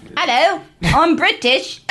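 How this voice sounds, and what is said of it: Put-on British accent. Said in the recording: “Do a British accent.”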